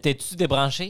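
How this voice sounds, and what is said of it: Put-on Québécois accent. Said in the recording (French): “Ton niveau de québécois, il est comment ? ... Je suis capable de faire l'accent”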